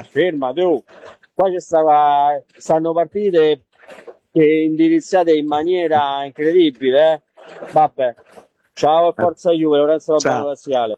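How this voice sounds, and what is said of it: Noticeable regional Italian accent. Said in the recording (Italian): “l'accento mi fa morire”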